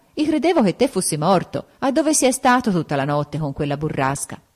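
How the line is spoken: Exclaiming. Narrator (Italian): esclamò

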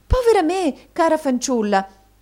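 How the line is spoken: Surprised exclamation. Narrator (Italian): esclamò madama Mantalini, arretrando sorpresa

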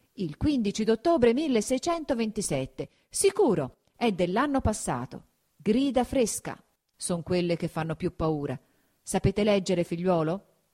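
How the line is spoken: Grave exclamation. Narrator (Italian): fatto un viso ancor più serio, esclamò

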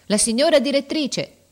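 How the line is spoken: Shouting. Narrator (Italian): la portinaia gridando

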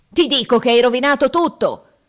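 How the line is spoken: Furious roar. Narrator (Italian): ruggite, desiderando d'aver l'amico nelle mani

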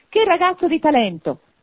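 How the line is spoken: Exclaiming. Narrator (Italian): esclamò Scrooge

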